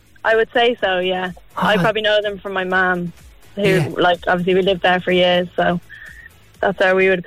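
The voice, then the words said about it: English accent. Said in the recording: “I'm detecting an English accent.”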